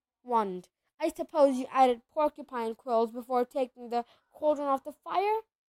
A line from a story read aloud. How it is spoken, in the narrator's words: Neville whimpered as the boils started to pop up all over his nose